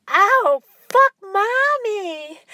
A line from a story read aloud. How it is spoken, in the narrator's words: squealed